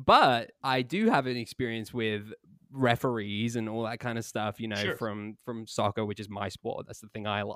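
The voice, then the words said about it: Non-American accent. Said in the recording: “I have a very limited experience with American football. You might be able to tell that by my accent.”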